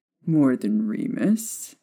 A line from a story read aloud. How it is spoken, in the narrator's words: he inquired, in a light teasing tone